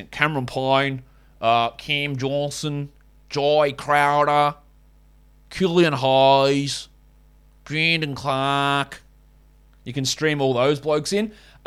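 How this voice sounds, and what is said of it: Bad put-on Australian accent. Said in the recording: “let's just do it in a bad Australian accent.”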